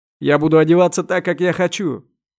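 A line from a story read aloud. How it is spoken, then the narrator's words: Nearly shouting. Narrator (Russian): почти кричал Вахидов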